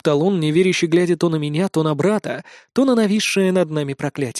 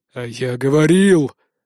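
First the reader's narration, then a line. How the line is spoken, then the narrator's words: Growling proclamation. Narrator (Russian): рыкающим голосом возвестил Норт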